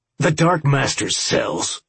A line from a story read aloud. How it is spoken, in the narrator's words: Campbell snarled